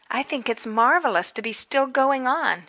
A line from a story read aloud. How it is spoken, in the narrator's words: said kindly